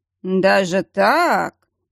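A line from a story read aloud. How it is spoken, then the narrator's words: Drawling. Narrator (Russian): протянул Верейский, зацепившись за слово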